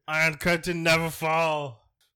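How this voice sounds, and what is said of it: Put-on German accent, too high. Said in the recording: “that's a German accent. Yeah. This one is too high.”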